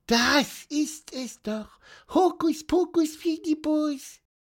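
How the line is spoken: Piping squeak. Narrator (German): piepste

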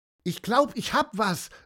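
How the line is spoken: Called out. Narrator (German): rief Mia

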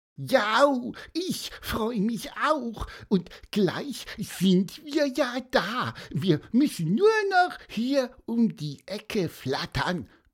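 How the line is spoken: Squeaky chirp. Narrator (German): piepste Pieper

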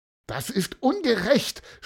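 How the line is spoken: Shouting. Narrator (German): schrie Mattis

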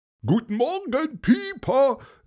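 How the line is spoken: Called by retired inspector. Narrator (German): rief der Kriminalkommissar im Ruhestand, Antonius Paulus

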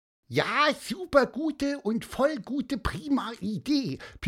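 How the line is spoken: Squeaked. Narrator (German): piepste auch Pieper

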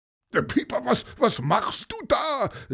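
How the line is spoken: Calling. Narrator (German): rief er

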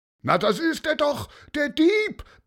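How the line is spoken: Roared. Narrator (German): brüllte

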